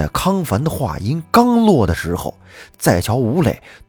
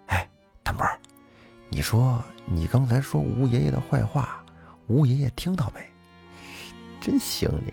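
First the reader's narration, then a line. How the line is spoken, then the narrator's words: Whispering. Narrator (Chinese): 康凡小声的说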